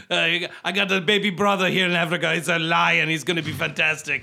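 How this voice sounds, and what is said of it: Crazy put-on accent. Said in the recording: “crazy accent”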